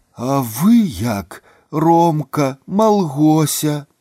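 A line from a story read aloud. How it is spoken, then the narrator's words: Smiling. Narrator (Belarusian): Лысавата-рудаваты усміхнуўся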